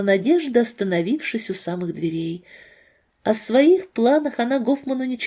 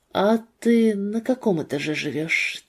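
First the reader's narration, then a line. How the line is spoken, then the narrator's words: Quiet question. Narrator (Russian): тихо спросил Артур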